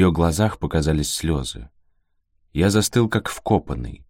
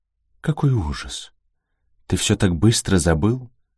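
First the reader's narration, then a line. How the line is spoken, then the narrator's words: Strained, dejected. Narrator (Russian): С трудом выдавила она, опустив голову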